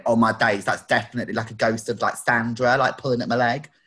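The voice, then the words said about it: Gemma Collins impression. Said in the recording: “That was your best Gemma Collins impression.”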